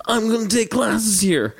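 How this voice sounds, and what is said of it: California surfer-style voice impression. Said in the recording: “That's Farley? ... That's my impression. ... It's not bad. ... it's actually more California that was, surfer.”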